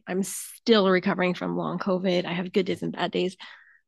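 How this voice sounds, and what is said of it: Scratchy, hoarse voice. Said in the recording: “you can probably hear in my voice that it's a little scratchy ... my scratchy voice”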